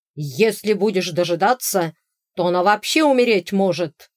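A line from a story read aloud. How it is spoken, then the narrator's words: Leader's bark. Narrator (Russian): рявкнул главарь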